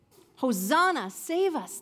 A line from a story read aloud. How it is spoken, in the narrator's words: they'd cried